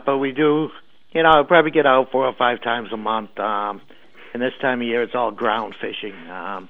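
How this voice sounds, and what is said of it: Boston-area New England accent. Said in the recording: “it's worth hearing you just to hear the accent. My dad was from Worcester.”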